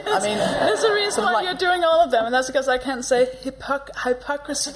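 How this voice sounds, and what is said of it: Danish accent. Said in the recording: “a Danish accent”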